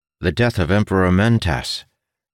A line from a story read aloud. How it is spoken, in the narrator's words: Ildin said, his voice grim